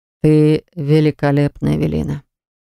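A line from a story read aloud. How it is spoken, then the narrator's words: Slightly hoarse. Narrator (Russian): произнес он чуть хриплым голосом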